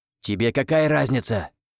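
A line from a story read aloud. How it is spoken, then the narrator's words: Sorcerer snapping back. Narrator (Russian): огрызнулся колдун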